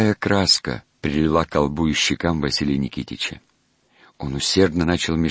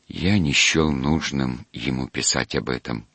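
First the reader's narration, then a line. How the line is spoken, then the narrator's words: Quiet objection. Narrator (Russian): тихо возразил он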